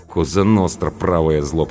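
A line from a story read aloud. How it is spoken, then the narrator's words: Mumbled grumble. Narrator (Russian): пробурчала Анка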